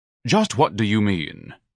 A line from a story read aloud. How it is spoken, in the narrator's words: Ignatius asked haughtily